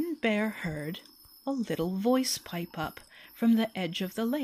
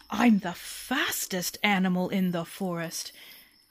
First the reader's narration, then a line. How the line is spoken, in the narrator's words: Bear was so impressed with how fast she could run, she ... roared